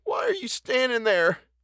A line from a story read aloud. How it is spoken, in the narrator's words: she sobbed